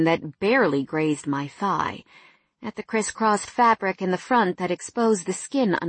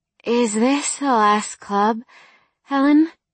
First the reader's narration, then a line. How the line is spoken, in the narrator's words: I slurred